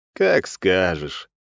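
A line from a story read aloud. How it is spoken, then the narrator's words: Lazy reply. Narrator (Russian): лениво ответил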